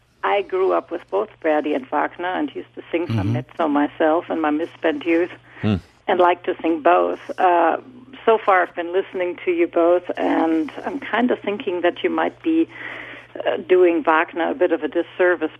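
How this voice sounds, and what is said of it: German accent. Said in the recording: “you may hear from my voice, I'm actually German”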